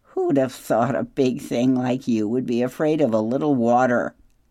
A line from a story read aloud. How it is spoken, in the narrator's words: Loudwing laughed